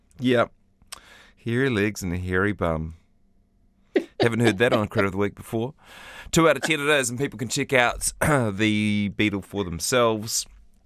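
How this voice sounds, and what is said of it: Croaky, sick-sounding voice. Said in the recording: “You can hear the sickness in my voice. I apologise, by the way, for the croakiness ... I'm staggering off to a sick bed.”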